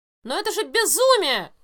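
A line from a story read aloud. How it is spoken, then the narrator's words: Exclaimed. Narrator (Russian): воскликнул Натриллиан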